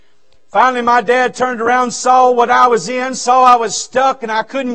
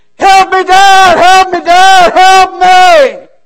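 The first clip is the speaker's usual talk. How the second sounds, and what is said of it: Screaming at top of lungs. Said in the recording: “I'm screaming at the top of my lungs”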